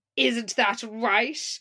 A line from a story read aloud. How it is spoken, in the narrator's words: says loudly as the teacher walks by